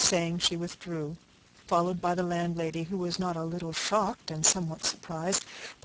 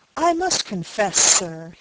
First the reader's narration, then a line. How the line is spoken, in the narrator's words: he exclaimed with heat